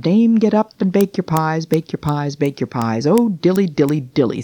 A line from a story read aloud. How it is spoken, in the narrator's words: sighed Simpkin